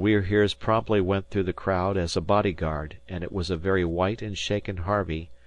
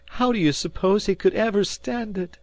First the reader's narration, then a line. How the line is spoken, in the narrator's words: she cried indignantly to Shane